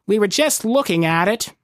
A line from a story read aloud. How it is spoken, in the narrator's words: said sullenly, his tail lashing